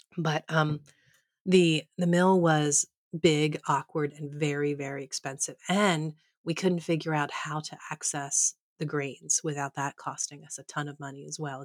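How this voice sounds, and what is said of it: Slightly odd, unwell-sounding voice. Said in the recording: “if I sound a little odd to you, I am really fighting some sort of a ... I don't feel great ... sorry if I sound weird”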